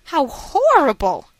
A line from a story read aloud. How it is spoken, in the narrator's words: I exclaimed